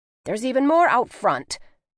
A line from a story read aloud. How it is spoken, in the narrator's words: Bertie snapped, storming